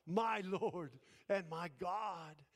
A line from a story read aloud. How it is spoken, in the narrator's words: Thomas cried out